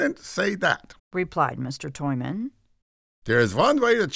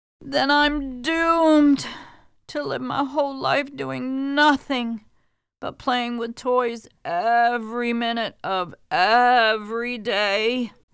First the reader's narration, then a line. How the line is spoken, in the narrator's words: moaned the princess